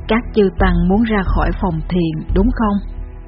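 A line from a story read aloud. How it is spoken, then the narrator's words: Old monk's gentle question. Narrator (Vietnamese): lão thiền sư nhẹ nhàng hỏi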